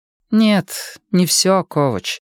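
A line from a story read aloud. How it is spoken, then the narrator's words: Weary. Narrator (Russian): устало произнесла адвокат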